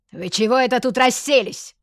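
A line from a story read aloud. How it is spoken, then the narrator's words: Roar. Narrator (Russian): проревела она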